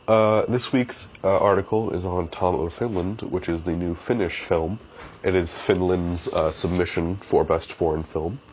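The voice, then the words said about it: Congested, slightly odd-sounding voice. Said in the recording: “I'm a little congested right now, so if I sound a little weird”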